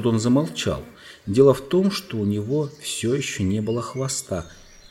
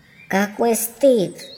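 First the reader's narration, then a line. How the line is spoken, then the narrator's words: Squeaky. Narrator (Russian): запищал мышь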